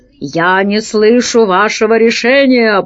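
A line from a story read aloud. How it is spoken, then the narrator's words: Growled. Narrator (Russian): прорычал Пашка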